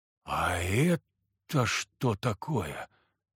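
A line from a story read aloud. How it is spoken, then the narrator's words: Whispering. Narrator (Russian): прошептала земляна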